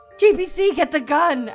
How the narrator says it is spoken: Adel screamed far too late

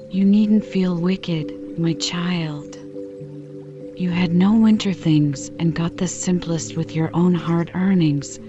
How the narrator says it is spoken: said Mrs

